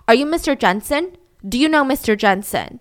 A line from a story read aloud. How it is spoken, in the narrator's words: Mike asks them confidently and loudly